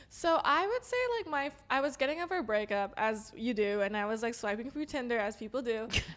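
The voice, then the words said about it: Valley girl accent. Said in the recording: “you sounded like a Valley girl ... My accent's coming out”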